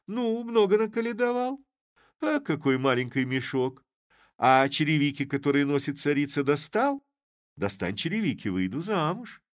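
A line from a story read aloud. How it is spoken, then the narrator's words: Laughing. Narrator (Russian): засмеявшись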